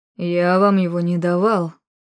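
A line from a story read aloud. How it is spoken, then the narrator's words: Through gritted teeth. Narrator (Russian): процедил Арманд сквозь зубы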